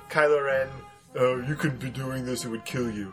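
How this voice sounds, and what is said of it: Imitates Kylo Ren's voice. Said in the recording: “my best Kylo Ren impersonation”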